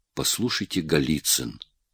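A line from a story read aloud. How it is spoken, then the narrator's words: Calm, firm interruption. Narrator (Russian): перебил Оболенский спокойно и твердо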